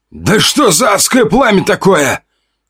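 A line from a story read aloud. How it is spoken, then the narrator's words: Firefighter shouting. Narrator (Russian): кричал пожарный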